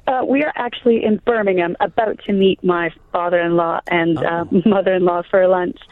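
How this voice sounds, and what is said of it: Croaky, hoarse voice. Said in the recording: “I've got a terrible voice. It's really croaky.”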